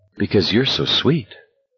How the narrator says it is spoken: McFreeze said tenderly

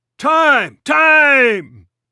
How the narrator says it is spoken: the home plate umpire bellowed

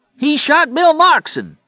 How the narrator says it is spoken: he yelled in a high, queer voice

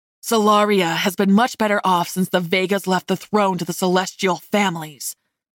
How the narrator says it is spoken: Seth growled

